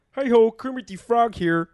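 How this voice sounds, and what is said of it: Kermit the Frog character voice. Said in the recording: “I can do Kermit. ... Do Kermit.”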